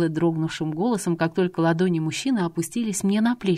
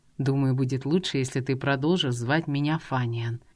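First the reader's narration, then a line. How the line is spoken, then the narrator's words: Quiet. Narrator (Russian): тихо произнес он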